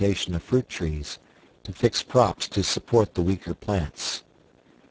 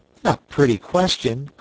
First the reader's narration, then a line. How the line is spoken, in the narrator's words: cried Jack